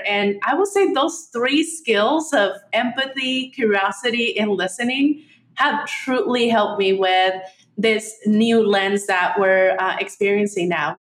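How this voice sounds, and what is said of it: Slight Mexican Spanish accent. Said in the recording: “I hear a little bit of an accent ... I come from a Mexican background ... Spanish speaking throughout my young years”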